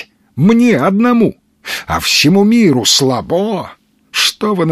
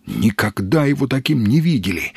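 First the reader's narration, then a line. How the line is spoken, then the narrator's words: Whispering crowd. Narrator (Russian): шептались в толпе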